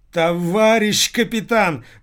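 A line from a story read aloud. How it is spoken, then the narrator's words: Husband howling. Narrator (Russian): взвыл Татьянин муж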